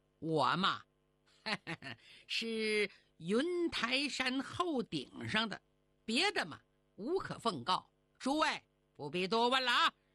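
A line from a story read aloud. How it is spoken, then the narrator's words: Old man, smiling. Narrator (Chinese): 小老头笑了笑说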